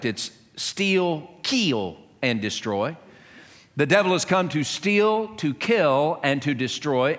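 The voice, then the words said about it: Southern American dialect. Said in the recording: “In southern terms, in my dialect”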